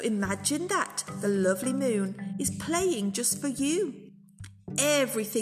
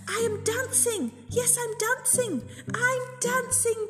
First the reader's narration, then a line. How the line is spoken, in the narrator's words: Gerald cried